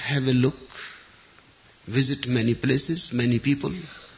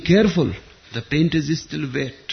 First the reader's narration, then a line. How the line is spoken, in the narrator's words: Whistler cried out in agony